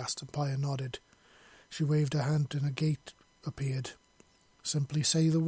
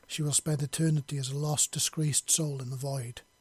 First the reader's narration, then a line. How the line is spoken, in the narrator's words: she said coldly